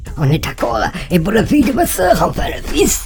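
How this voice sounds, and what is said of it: Usual voice. Nothing is said of it.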